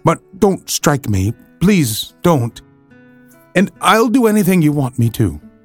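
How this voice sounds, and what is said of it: Trembling, frightened voice. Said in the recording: “in a trembling voice”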